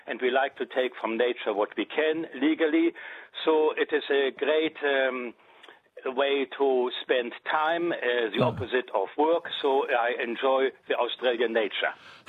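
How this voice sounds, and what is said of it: German accent speaking English. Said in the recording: “you're German, by the way, aren't you? ... I just know the accent.”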